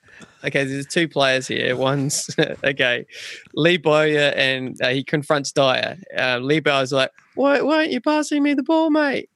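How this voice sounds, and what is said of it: Put-on New Zealand accent. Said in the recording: “Accent, please. ... Do you want my Kiwi one?”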